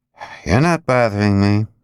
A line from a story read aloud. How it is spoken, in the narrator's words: Al said as he gloomily watched